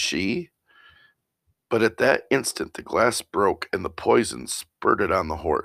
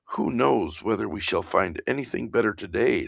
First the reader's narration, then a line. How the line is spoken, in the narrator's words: said the servant